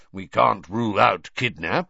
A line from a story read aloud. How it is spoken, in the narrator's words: growled Moody